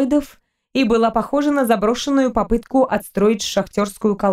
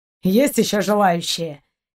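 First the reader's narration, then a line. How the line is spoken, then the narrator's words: Angry grumble. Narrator (Russian): сердито проворчал Шейн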